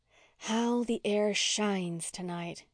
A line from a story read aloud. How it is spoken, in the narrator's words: said Walter dreamily